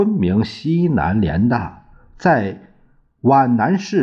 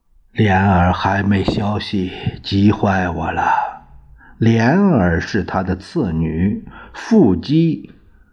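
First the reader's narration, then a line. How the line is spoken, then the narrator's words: Sighing, worried. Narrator (Chinese): 又叹了口气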